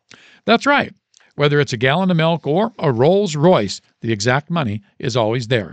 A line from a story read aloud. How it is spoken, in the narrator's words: says the man